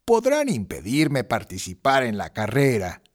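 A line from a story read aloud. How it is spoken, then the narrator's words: Grumbling. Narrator (Spanish): refunfuñó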